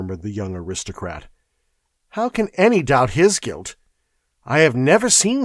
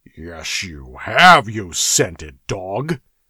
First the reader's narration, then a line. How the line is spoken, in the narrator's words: snarled the Cimmerian